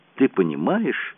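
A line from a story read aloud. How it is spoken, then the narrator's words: Exclamation. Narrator (Russian): воскликнула Джулиан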